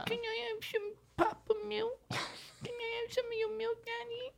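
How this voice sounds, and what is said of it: Baby voice. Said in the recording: “do the baby voice”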